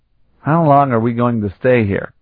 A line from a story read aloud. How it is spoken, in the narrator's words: Carlton asked